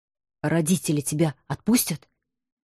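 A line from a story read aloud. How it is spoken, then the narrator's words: Anxious whisper. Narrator (Russian): тревожным шепотом спросил мой муж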